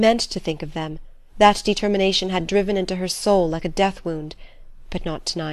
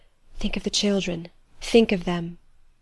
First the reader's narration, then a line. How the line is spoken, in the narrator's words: Adèle's voice whispering